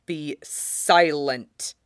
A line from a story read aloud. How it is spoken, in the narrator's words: hisses